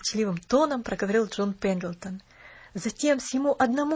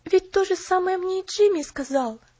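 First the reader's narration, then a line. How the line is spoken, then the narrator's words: Exclamation. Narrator (Russian): воскликнула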